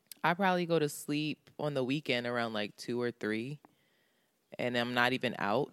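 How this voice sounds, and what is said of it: Very deep, just-woke-up voice. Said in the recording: “You can hear I'm just waking up too. Like, you can hear it in my voice. This joint is mad deep right now.”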